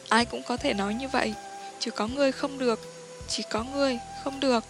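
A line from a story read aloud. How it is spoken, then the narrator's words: Whispering. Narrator (Vietnamese): Nàng thì thào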